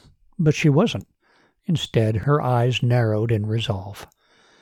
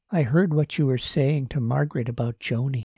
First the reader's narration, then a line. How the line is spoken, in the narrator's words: she said quietly